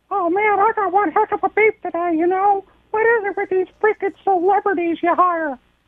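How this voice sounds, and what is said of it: Mickey Mouse impression. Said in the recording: “a fictional character. Mickey in Anaheim ... It's Mickey Mouse.”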